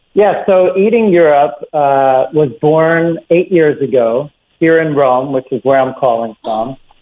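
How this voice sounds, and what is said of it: Philadelphia accent. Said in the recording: “I'm originally from Philadelphia. You can probably pick that up from my accent.”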